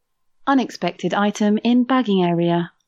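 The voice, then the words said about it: Imitates a self-checkout machine voice. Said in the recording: “Oh, that was so good. ... Such a good impression.”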